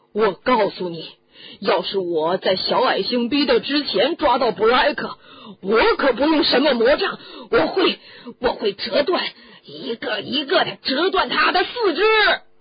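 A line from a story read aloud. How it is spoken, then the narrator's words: Roaring again. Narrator (Chinese): 嗨哥又咆哮起来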